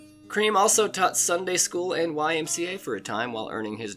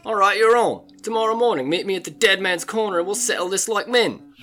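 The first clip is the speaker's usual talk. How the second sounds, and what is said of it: Imperfect London accent drifting Australian. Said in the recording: “I still haven't quite mastered a proper London British accent yet. Still turns Aussie for some reason.”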